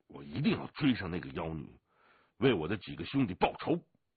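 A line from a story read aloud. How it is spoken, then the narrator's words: Through gritted teeth. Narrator (Chinese): 祥龙咬了咬牙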